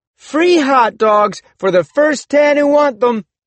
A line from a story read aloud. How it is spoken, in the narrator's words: I shouted